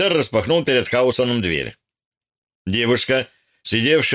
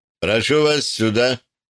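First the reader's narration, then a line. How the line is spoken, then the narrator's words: Dry, curt. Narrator (Russian): сухо сказал он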